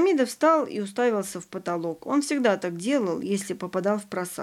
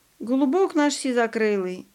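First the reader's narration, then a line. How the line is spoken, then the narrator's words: Laughing. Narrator (Russian): засмеялся Ваня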